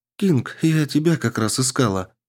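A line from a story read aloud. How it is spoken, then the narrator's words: Worried voice. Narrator (Russian): произнесла обеспокоенным голосом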